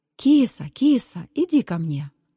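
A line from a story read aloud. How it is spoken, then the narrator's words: Tender, coaxing. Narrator (Russian): ласково, как домашней кошке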